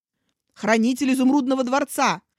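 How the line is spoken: Repeated growl. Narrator (Russian): в третий раз прорычал Аубин

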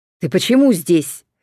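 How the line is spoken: Barked. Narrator (Russian): рявкнул он на Динона

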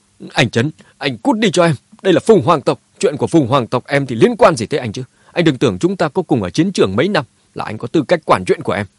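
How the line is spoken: Angry. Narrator (Vietnamese): Mã Tuân tức giận nói

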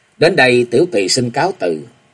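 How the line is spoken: Smiling. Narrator (Vietnamese): Lục Tỉnh nàng mỉm cười tiếp lời

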